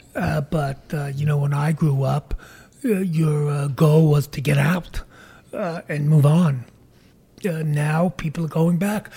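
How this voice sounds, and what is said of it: Brooklyn accent. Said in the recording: “you've got the accent ... You haven't lost it ... you've got the most wonderful Brooklyn accent”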